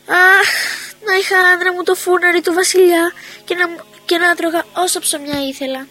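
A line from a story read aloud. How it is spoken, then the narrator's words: Sighing. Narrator (Greek): αναστέναξε και είπε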